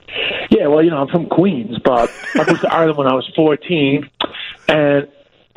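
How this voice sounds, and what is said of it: New York accent. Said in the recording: “I hear a guy with a New York accent”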